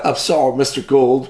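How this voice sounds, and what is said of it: Generic put-on Southern accent. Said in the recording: “that's the most generic Southern accent there is”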